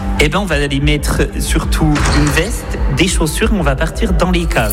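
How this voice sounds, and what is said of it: Regional Franche-Comté French accent. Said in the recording (French): “il y aura mon accent, hein, c'est cadeau ... charmant franc-comtois, comme vous avez pu l'entendre”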